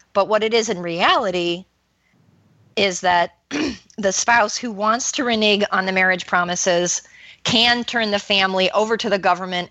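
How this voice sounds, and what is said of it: Hoarse, strained voice. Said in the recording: “my voice is getting hoarse.”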